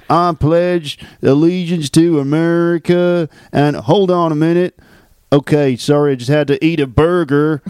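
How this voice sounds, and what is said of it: Deep American Southern accent. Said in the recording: “a deep Southern accent.”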